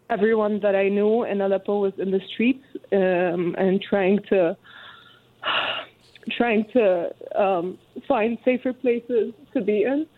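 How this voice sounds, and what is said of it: Emotional, voice breaking with tears. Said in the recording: “I might get emotional.”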